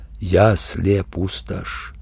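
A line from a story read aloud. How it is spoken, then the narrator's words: Quiet. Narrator (Russian): сказал негромко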